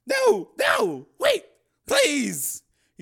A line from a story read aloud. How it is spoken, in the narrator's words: he said, his voice cracking